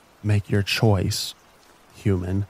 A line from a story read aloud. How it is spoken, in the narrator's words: whispered